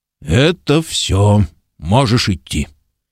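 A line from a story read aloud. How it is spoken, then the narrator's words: Muffled, dull. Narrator (Russian): Ильдефонс глухо сказал служанке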